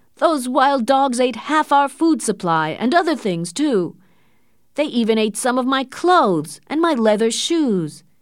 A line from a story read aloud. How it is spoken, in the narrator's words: shouted Perrault